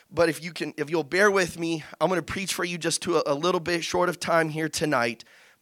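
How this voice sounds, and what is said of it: Weak, sick-sounding voice. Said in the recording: “I kind of caught the little sickness that's going on, so my voice is super weak as well.”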